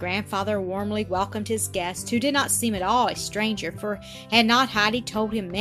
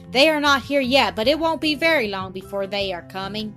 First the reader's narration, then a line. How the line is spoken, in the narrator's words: she called out to her grandfather quite happily